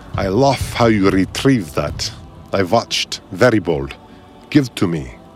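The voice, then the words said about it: Thick foreign accent. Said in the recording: “in a thick accent”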